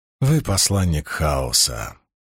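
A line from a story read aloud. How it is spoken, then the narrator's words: Soft. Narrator (Russian): проговорил Доусон мягко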